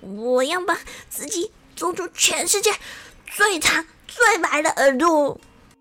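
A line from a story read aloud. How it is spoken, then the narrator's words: Tearful vow. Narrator (Chinese): 东东大哭了一场，然后对着镜子里面的自己发誓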